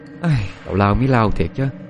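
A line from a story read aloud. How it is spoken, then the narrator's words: Laughing, weary sigh. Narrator (Vietnamese): Trúc cũng cười thở dài chán nản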